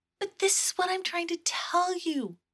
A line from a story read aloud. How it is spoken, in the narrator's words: pleaded Asha